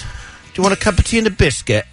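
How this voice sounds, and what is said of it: Put-on British Queen's English accent. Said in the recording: “the smartest sounding accent is the British accent... The Queen's English... That's how they speak. I'm the worst at accents.”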